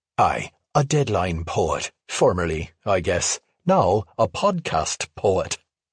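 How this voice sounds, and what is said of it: Weak put-on Irish accent. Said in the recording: “an Irish poet ... My Irish accent wasn't cutting it”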